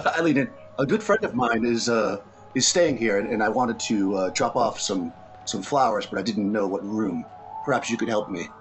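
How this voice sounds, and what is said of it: Woman playing a charming man voice. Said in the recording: “impersonating a woman impersonating a man.”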